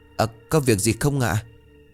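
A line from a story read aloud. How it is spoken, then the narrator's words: Stammering question. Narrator (Vietnamese): Cô ấp úng hỏi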